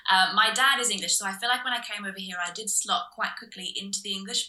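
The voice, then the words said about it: Slight Australian accent. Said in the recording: “you might hear a slight twang in my voice. I'm from Australia originally ... you'll hear some vowels here and there that are very, very Aussie”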